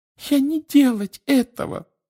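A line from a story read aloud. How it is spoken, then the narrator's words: Frightened squeak. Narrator (Russian): пропищала она, от страха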